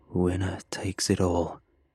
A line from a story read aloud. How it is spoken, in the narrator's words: he croaked